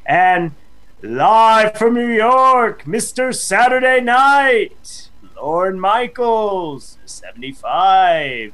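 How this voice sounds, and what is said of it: Announcer-style impression voice. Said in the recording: “That was my best impression”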